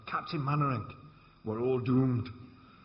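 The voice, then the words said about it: Poor put-on Scottish accent. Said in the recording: “That's not a very good Scottish accent, is it?”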